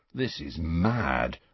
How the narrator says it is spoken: Ron murmured

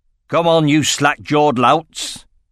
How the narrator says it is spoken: roared Frederick

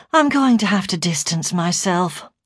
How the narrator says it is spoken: I said wearily

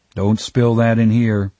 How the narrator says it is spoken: Jeff said

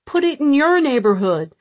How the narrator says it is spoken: They yelled

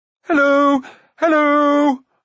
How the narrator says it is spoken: at the top of his voice

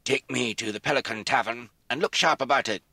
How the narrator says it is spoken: said in a deep croak

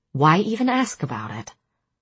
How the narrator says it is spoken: I said coldly

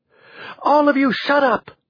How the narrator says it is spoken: Joanna shouted

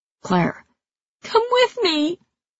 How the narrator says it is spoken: pleaded like the child I was

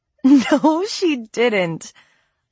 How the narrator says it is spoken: I exclaimed with a squeal, covering my mouth with my hand

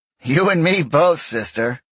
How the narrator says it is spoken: the CAG laughed

